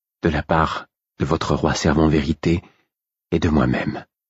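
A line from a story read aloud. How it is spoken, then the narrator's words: Low half-voice. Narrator (French): dit-elle à mi-voix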